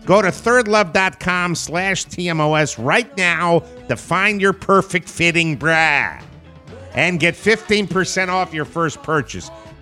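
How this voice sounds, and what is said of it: Put-on Chicago accent. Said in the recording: “I did this bra commercial with a Chicago accent ... I love the Chicago accent.”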